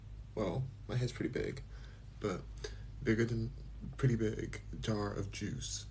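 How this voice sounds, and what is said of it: Quiet whispered speech. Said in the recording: “we're going to be whispering a bit because the baby's sleeping ... So I'm just going to kind of do a little whisper”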